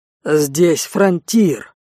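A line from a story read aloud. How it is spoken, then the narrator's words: Angry bass. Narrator (Russian): зло басил Рей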